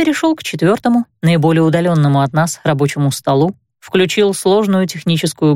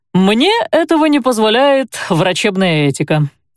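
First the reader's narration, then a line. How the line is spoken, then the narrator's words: Cheerful. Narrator (Russian): сообщил он весело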